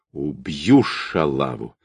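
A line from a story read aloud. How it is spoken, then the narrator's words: Angry, strained, through teeth. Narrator (Russian): зло процедил, с трудом выпрямляясь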